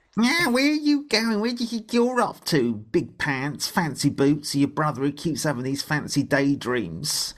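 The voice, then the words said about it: Impression of bullying rabbit police. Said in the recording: “can you do an impression of that? Of me, can you do an impression of me doing an impression of them?”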